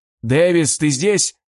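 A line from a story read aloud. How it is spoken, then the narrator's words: Shouting into headset. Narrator (Russian): выкрикнул я в наушник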